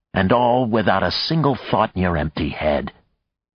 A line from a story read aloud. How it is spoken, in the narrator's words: Maya snarled in a whisper